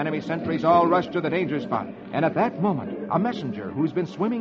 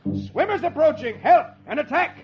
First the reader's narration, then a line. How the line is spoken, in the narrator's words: An enemy sentry he yells